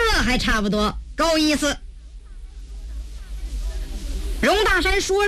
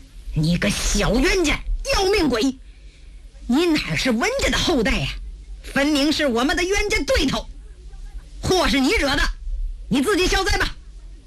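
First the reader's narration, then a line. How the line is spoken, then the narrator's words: Furious. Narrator (Chinese): 吴老闻听此言是大怒啊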